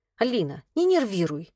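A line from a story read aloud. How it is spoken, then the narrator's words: Snapped. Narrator (Russian): огрызнулась Ксюха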